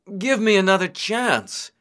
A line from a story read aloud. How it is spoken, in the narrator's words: begged